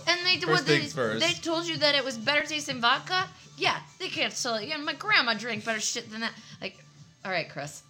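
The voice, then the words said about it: Weird drunk-sounding imitated voice. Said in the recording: “in, like, a weird voice ... That was my Chris being drunk voice ... That sounds just like him.”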